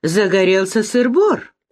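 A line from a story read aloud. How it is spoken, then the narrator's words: Laughing. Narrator (Russian): сказал, смеясь Адольф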